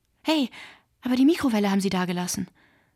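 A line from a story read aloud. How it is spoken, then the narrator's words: Calling out. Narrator (German): rief Aton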